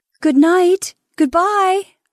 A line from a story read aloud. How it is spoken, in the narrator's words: she cried from the top step, feeling that this self of hers was taking leave of them forever